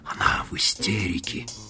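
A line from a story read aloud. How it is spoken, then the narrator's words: Whispered. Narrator (Russian): прошептал он Мадлен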